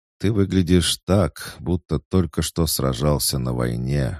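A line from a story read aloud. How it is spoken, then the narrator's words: Sighing. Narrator (Russian): вздохнул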